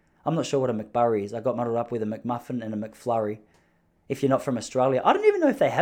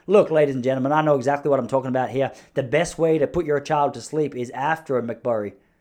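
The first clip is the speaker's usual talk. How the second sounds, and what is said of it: Put-on American accent. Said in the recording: “you do the American accent”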